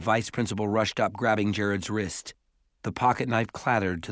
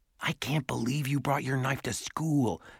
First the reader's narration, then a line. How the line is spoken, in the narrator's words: Simon whispered to Jared